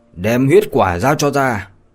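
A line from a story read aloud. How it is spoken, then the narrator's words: Angry demand. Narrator (Vietnamese): khuôn mặt của Lâm Động lướt qua một sự giận dữ mà nói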